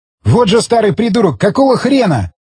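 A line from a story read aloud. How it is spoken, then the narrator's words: Shouting after someone. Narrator (Russian): крикнул вдогонку Альфтан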